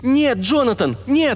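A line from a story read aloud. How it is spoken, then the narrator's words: Shrieking. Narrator (Russian): взвизгнула она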